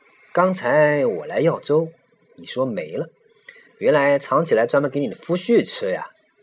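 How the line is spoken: Smiling teasing. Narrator (Chinese): 玉衡 笑眯眯的 说

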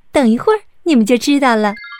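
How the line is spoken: Smiling. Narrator (Chinese): 白雪公主微笑着说

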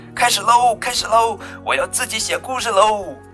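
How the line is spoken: Excited shouting. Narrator (Chinese): 小兔子兴奋地，它嚷嚷着

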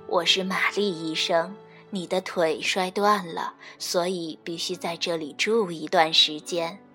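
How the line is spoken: Gentle reply. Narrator (Chinese): 一个温柔的声音回答道

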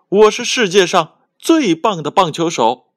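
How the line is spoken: Loud shout. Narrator (Chinese): 再一次大喊

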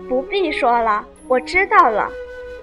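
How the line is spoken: Laughing. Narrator (Chinese): 凤姐因笑指道

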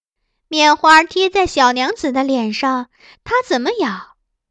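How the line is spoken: Laughing. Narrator (Chinese): 福月笑道

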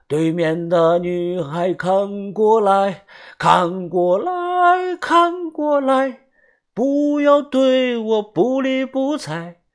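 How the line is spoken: Loud singing. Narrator (Chinese): 又大声的唱道

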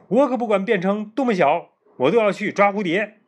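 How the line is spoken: Loud voice. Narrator (Chinese): 菲比高声说

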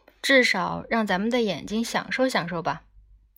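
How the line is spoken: Grumbling. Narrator (Chinese): 赞法德嘟囔道

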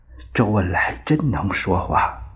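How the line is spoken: Low voice. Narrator (Chinese): 陈布雷挨着他低声说道

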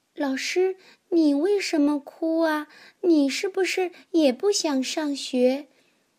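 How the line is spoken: Quiet question. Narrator (Chinese): 小苹果 小声的问

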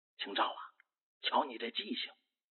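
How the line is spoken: Soft voice. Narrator (Chinese): 母亲小声说

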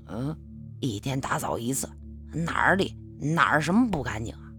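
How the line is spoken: Mumbling with full mouth. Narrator (Chinese): 他夹了个饺子塞进嘴里，咕哝的一说

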